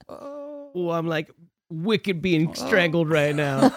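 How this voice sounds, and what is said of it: Poor attempt at Boston accent. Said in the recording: “Oh, I cannot do a Boston accent.”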